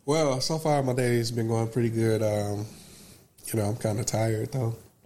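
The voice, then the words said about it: Congested, slightly different voice. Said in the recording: “I can tell in my voice I sound a little different. Got my little sinuses going”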